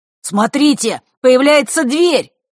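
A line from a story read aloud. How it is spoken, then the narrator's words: Excited shout. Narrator (Russian): возбужденно выкрикнул Мар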